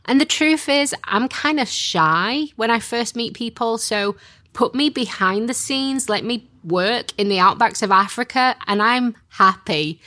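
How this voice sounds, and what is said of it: Strong Yorkshire accent. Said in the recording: “born in Yorkshire, where my accent is really strong”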